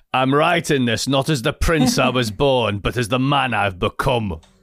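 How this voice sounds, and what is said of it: Game of Thrones-style accent. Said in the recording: “You got to do it in a Game of Thrones accent”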